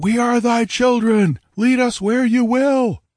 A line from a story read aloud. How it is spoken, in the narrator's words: roared